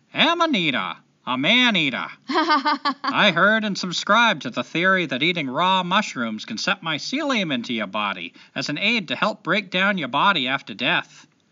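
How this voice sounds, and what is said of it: Put-on Maine accent. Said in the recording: “I got to do this one in an accent. This is Tim from Maine. I can't just go back to, like, North Carolina when I'm talking for a guy from Maine now.”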